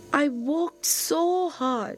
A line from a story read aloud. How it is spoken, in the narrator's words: said sadly